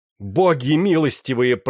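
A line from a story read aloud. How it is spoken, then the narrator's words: Shout. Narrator (Russian): прокричал он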